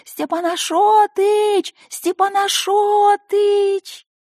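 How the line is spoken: Thin funny shouting voice. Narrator (Russian): крича тонким смешным голоском

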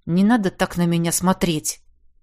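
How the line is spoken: Grumbled. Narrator (Russian): буркнул я

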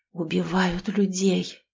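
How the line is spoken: Tearful whisper. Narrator (Russian): прошептал Борис, и Роману показалось, что он сейчас заплачет

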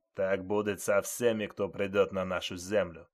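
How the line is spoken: Menacing, several voices. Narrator (Russian): Грозно сказали они

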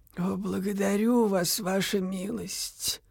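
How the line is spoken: Creaky nun's voice. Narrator (Russian): проскрипела монахиня

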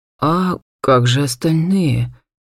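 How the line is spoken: Uncertain question. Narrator (Russian): неуверенно спросил Эдван

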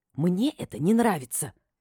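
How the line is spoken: Indignant hiss. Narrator (Russian): Возмущенно прошипела

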